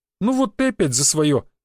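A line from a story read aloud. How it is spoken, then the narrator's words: Exclaiming. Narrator (Russian): воскликнул Валентин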